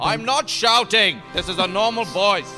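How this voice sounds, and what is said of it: Loud drunken shouting. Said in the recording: “is speaking much louder than anyone else here”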